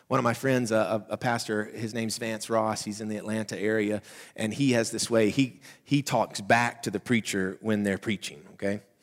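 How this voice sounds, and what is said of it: High-pitched Southern accent. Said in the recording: “not like mine. Mine's more like a high-pitched Mickey Mouse Southern accent voice.”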